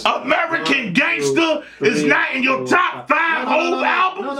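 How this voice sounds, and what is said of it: Yelling. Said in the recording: “I'm yelling”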